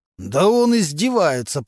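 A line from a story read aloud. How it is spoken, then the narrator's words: Continued growling. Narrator (Russian): продолжал рычать Мантуленко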